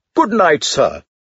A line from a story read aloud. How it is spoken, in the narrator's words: after a prolonged hesitation and several false starts, his voice once more stinging, flung at me